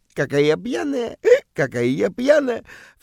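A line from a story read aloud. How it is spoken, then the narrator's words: Flirtatious giggling. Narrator (Russian): кокетливо хихикает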